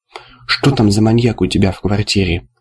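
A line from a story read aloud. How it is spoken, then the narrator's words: Quiet question. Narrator (Russian): негромко спросил Вискас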